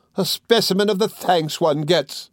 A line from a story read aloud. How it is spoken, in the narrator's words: cried Mrs